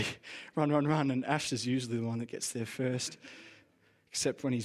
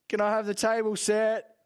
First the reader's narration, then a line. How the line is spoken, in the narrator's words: Mum yells